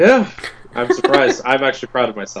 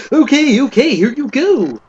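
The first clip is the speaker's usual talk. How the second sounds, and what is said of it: Imitated character voice. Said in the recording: “That was a good Wrench imitation.”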